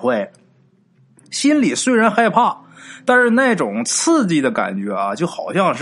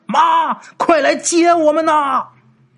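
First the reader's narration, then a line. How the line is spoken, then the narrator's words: Loud shout. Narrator (Chinese): 鬼友大喊一声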